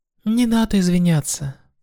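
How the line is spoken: Soft, smiling. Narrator (Russian): мягко улыбнулась ей Суэма

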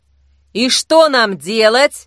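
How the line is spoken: Loud question. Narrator (Russian): громко спросила Зои

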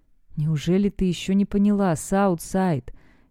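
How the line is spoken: Hoarse breathy words in ear. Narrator (Russian): хрипло спрашивает Уэст, выдыхая слова мне на ухо

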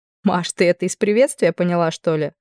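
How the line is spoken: Laughing. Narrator (Russian): рассмеялась я

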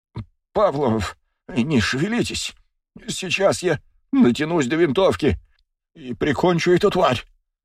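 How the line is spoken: Muttered. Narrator (Russian): пробормотал Арбузов

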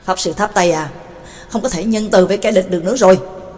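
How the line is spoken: Harsh, stressed voice. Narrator (Vietnamese): Bà Tàng cũng gằn giọng nói

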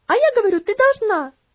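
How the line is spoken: Shrieking. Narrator (Russian): Завизжала Энна

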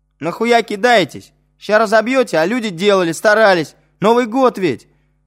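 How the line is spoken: Shout. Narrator (Russian): крикнул им Вадим

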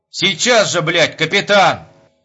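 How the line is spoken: Shouting again. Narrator (Russian): Закричал он вторично

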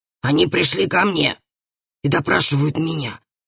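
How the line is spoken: Stern tone. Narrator (Russian): сказал ей отец строгим тоном

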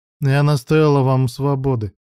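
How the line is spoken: Dry tone. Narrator (Russian): сухим тоном произнесла Брук

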